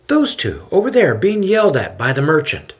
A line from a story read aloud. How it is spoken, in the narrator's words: Paul points and exclaims